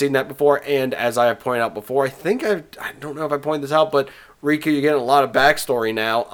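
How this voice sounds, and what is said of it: Usual voice. Nothing is said of it.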